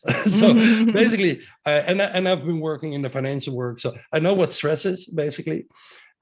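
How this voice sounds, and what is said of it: Strong Dutch accent. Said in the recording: “my accent, very Dutch accent”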